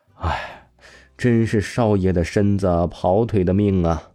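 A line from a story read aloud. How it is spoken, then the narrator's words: Muttering to himself. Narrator (Chinese): 王峰自语说完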